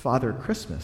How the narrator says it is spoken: stammered the fox

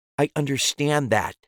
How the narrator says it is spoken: Deirdre snapped

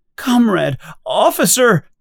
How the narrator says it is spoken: she cries

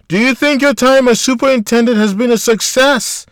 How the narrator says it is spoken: screamed

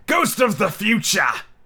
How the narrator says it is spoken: he exclaimed

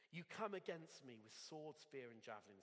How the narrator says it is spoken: said David

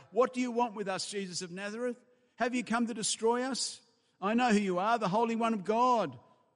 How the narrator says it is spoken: a demon-possessed man called out

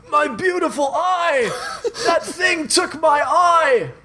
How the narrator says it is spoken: Matt screams

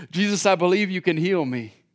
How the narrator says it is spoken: cries out with desperate dependence

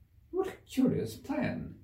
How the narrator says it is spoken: exclaimed Alice

